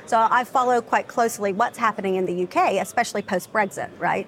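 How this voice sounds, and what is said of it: American Southern accent. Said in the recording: “I'm based in London, despite my accent. I'm from Charleston, South Carolina”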